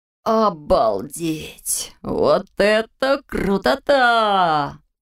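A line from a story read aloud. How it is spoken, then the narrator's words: Breathless exclamation. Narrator (Russian): выдохнул Фрай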